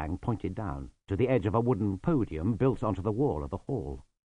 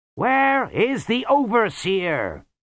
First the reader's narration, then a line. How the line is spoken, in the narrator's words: He cupped his hands and shouted